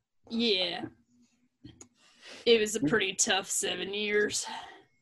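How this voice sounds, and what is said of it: Drawling character voice. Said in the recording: “your drawl really gives off that impression.”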